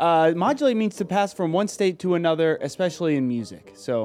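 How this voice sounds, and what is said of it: Usual voice. Nothing is said of it.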